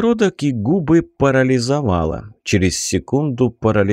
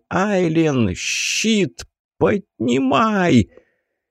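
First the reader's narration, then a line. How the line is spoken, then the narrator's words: Shouting. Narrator (Russian): И я крикнул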